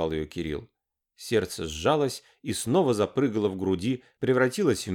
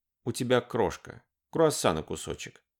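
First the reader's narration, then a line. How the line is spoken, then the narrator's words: Tender. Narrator (Russian): ласково проговорил Кирилл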